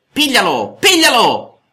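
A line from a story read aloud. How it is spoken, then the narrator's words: Shouting. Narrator (Italian): urlava Geppetto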